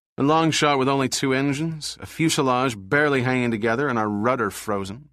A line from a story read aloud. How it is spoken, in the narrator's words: Barrett said grimly